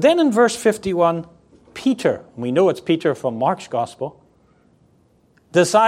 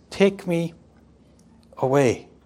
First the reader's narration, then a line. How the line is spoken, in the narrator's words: he meekly, submissively says